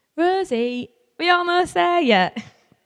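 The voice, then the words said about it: Poor put-on Yorkshire accent. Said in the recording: “my really poor attempt at a Yorkshire accent.”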